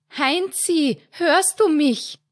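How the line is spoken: Mother's worried shout. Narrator (German): schrie seine Mutter in Sorge

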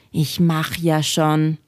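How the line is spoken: Sighing grumble. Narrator (German): Kalle seufzte und brummte

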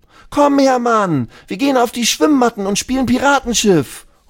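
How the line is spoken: Calling out. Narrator (German): ruft Lulu

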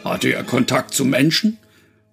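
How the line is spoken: Booming-voiced man asking. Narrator (German): wollte der Mann mit der Donnerstimme wissen

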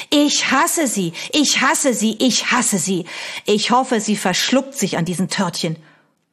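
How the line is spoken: Screaming. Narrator (German): Sie schrie

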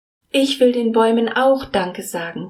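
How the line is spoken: Calling out. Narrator (German): ruft Mila

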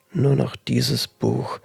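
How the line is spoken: Muttering to herself. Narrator (German): murmelte sie in sich hinein

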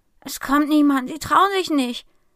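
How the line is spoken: Dejected murmur. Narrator (German): murmelt sie bedrückt

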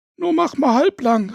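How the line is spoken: Shouted from the kitchen. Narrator (German): rief es aus der Küche

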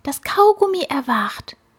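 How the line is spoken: Frightened whisper. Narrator (German): flüsterte die Fliege erschrocken

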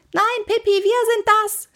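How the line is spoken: Shouting. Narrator (German): schrie Annika

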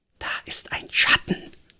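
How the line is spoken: Breathy whisper. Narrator (German): hauchte sie

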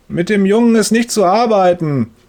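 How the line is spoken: Booming voice through wall. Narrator (German): donnert Herr Müllers Stimme durch die Wand

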